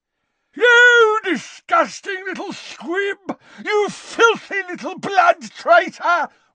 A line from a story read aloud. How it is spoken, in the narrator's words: roared Gaunt, losing control